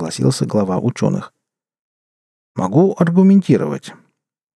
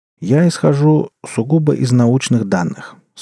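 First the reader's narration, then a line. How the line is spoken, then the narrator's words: Calm. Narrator (Russian): спокойно сказал Симаргл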